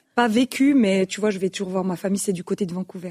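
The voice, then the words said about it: French with a Canadian accent. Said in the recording (French): “D'où vient cet accent? ... toi t'es canadienne en fait ... C'est ça le petit côté charmant”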